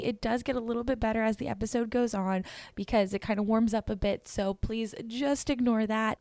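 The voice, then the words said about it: Raspy, strained voice. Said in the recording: “I happened to ride a couple of rides that I ended up screaming on ... my voice is a little raspy”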